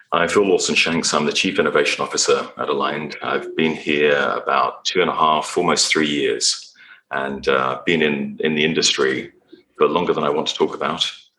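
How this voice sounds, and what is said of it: Non-American accent. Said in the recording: “Obviously, I don't sound American.”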